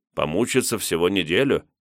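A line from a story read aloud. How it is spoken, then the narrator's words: Snorting. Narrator (Russian): хмыкнул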